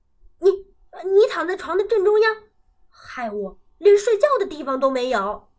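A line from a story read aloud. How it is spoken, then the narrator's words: Angry question. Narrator (Chinese): 蹦蹦一骨碌爬起来，怒气冲冲的问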